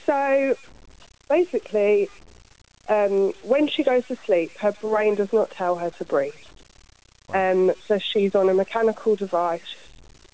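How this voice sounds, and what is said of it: Slightly strange voice, like a cold. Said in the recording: “I've currently got a bit of a cold, so my voice is a bit strange.”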